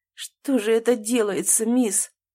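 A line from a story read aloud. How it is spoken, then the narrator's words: Bewildered mutter. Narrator (Russian): растерянно пробормотал он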